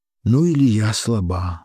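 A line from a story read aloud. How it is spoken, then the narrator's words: Sighing. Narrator (Russian): вздохнула Ольга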